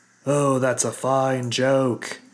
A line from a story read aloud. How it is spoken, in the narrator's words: Nyx said, his voice suddenly louder than normal